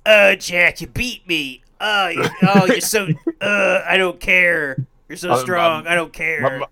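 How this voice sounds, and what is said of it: Imitation of a friend's voice. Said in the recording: “I'll do the Ian voice”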